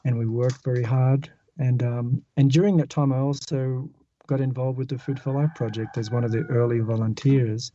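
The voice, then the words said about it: Mild Australian accent. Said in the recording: “I'm originally from Australia ... I think we could tell that ... My accent is not so strong”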